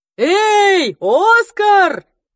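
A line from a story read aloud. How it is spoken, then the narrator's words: Father yelling across crowd. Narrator (Russian): завопил через всю толпу папа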